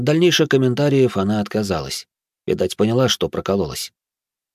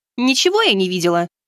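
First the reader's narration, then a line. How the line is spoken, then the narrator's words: Snorting young woman. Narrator (Russian): фыркнула девушка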